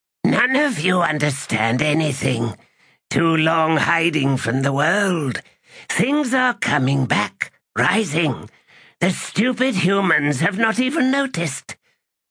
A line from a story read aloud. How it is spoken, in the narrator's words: Olar Ethil cackled again and then said